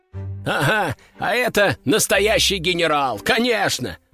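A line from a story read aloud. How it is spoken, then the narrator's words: Group bursting into laughter. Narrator (Russian): расхохотались остальные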